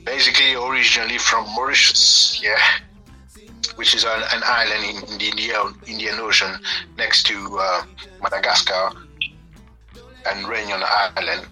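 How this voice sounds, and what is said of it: Mauritian accent. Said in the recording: “your accent and where you're from”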